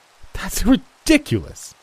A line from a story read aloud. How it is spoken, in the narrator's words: she spat, furious